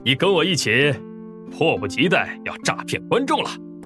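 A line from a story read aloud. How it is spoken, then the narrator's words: Wild laughter. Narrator (Chinese): 柳纯阳 狂笑道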